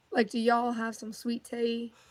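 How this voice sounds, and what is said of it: Attempted Southern drawl. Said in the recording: “Let me get your best Southern drawl. ... That's the best I got. I'm not great at it.”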